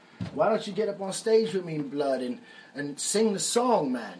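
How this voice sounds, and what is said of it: Put-on British accent. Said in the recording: “He's another British guy with the crazy accent.”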